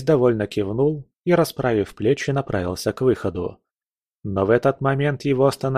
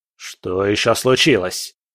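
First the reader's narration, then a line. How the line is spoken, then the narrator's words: Impatient bark. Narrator (Russian): рявкнул Бобшильд с нетерпением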